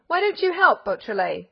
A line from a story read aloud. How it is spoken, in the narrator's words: cried the old detective, gnashing his teeth with rage